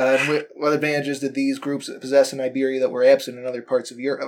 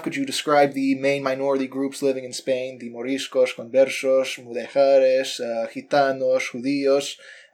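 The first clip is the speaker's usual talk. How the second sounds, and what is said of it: Spanish words in Castilian accent. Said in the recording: “your accent, your, your Castilian accent there was absolutely wonderful.”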